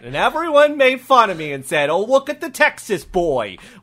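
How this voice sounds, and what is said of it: Texas accent. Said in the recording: “You're making fun of my Texas accent. ... It is a little distracting. ... I picked up this accent.”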